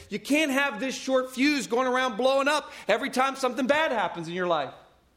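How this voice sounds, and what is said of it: Loud, near-yelling preaching. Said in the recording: “I'm not yelling. Right? I probably am, but I'm not.”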